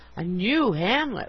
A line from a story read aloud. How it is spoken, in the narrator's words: we exclaimed, fascinated